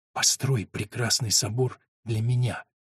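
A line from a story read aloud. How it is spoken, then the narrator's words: Whispered. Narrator (Russian): прошептала Агнес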